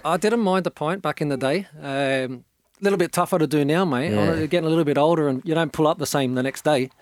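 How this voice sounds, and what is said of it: Australian-Scottish accent. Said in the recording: “the great Australian Scottish accent ... he's got the accent though”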